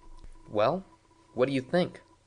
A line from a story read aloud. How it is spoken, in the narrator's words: Winter said nervously